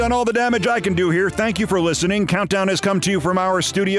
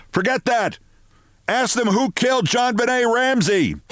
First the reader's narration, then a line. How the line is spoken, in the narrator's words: Phil Griffin, and he was shouting